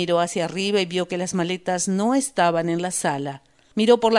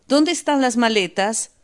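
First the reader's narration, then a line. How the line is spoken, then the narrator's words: Sudden shout. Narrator (Spanish): De repente Lisa gritó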